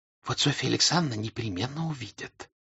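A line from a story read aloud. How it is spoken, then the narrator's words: Whisper. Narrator (Russian): шепотом сказала Дуняша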